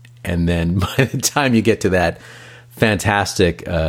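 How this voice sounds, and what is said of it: Usual voice. Nothing is said of it.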